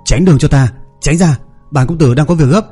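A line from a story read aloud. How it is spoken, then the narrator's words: Loud shout. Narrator (Vietnamese): có tiếng hét to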